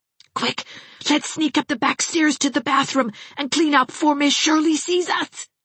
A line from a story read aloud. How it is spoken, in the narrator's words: gasped Geraldine